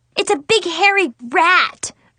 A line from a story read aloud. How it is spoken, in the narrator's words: I screamed